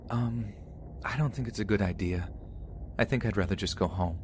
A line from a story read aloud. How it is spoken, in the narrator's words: I quietly responded